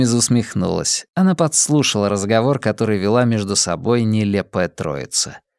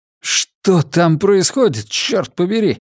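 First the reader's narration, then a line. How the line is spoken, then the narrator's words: Exclaimed. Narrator (Russian): воскликнул капрал Ки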